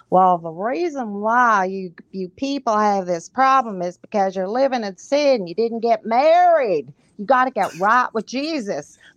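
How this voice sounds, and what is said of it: Bad put-on Southern accent. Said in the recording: “excuse my bad Southern accent, but I could just see someone saying this”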